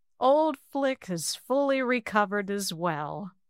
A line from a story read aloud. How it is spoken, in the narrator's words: Minion laughed shortly